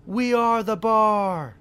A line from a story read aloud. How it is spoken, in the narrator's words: taunt